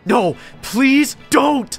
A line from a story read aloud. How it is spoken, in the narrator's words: I screamed at the top of my lungs